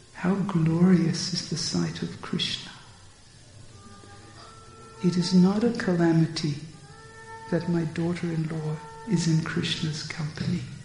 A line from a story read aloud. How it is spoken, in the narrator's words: Jyotila says quietly to herself